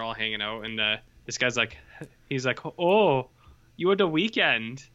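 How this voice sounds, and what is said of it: Put-on Scandinavian accent. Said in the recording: “That was his Scandinavian accent.”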